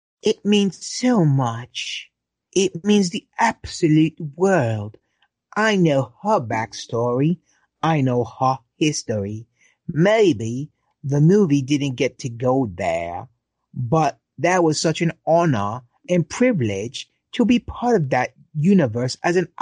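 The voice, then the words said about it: Put-on British accent. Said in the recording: “let me do it in a British accent.”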